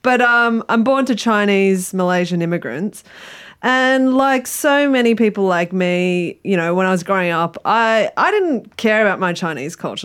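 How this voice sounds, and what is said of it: Australian accent. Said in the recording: “if you can't tell from my accent, I'm born and bred Aussie.”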